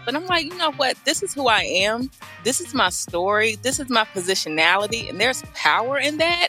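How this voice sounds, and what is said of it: Southern American accent. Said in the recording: “I'm from the South. I sound like a Southerner.”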